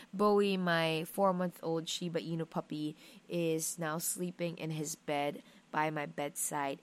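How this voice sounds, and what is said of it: Sleepy, low-pitched voice. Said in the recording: “I sound sleepy. I know I sound like a dude sometimes.”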